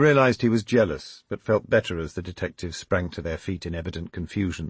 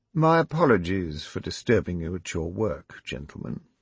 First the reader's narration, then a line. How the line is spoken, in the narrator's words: he muttered tetchily